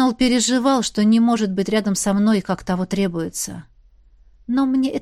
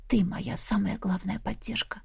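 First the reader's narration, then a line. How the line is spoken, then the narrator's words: Quiet reply. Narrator (Russian): тихо отозвалась я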